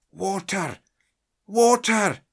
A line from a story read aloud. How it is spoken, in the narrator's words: gasped